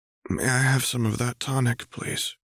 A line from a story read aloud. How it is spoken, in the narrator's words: Hella asked quietly